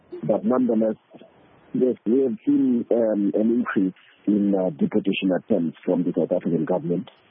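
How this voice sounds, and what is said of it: Congested voice from a flu. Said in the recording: “I hope I'm audible enough from coming up with a flu. So coming up with a flu, I'm hoping that my voice is audible enough.”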